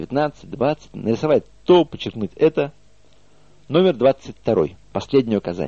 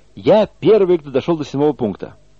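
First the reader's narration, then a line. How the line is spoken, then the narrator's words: Loud proclamation. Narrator (Russian): один из участников громко провозглашает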